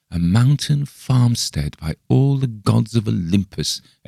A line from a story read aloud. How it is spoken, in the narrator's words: exclaimed Bergheim joyously